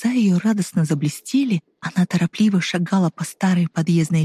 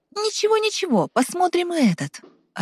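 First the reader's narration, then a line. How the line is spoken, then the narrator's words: Joyful. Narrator (Russian): радостно ответила Ева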